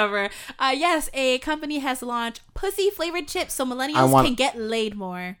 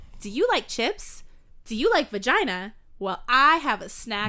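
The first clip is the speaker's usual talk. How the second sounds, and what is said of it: Announcer-style commercial voice. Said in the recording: “doing the commercial voice”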